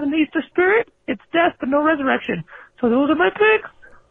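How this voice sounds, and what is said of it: Mickey Mouse-like cartoon voice. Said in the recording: “a point for the accent. The Mickey Mouse accent ... Easter Bunny. And Mickey Mouse have the same voice.”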